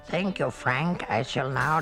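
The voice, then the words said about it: Man putting on a character voice. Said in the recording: “that sounded definitely like a man doing a voice.”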